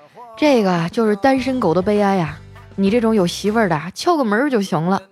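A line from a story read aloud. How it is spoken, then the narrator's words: Sighing. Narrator (Chinese): 他叹了口气啊，接着说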